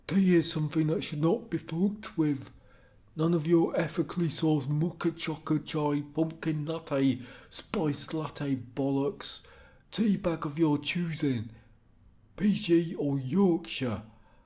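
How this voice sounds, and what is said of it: Attempted Liverpool accent. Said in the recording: “Was that supposed to be a Liverpool accent? No.”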